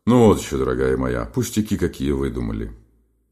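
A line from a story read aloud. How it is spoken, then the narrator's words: Gruff decisive bass. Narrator (Russian): отвечал своим грубоватым решительным басом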